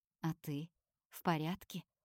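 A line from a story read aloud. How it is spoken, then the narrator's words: Unusually soft question. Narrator (Russian): спрашивает Наама непривычно мягко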